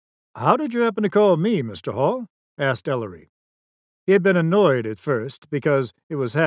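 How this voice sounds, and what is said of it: Usual voice. Nothing is said of it.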